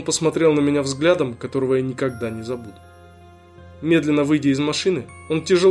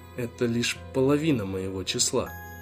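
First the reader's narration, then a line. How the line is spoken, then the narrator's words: Whisper. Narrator (Russian): прошептал он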